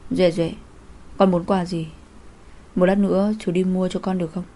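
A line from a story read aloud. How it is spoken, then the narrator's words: Gentle tender speech. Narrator (Vietnamese): Anh dịu dàng nói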